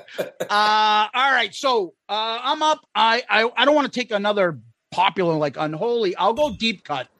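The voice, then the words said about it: Boston accent. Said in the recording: “that's a Boston accent if you haven't heard it yet... You can tell it a mile away.”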